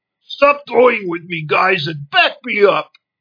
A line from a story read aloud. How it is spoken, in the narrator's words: He shouted angrily through tight, blood-drained lips